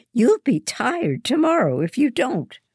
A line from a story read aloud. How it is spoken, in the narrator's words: she snaps